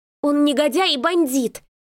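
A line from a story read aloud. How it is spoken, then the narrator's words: Losing control, yelling. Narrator (Russian): не выдержав, завопила я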